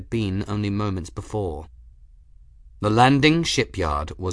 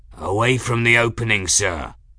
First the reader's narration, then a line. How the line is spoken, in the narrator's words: Kettle was saying, his voice rough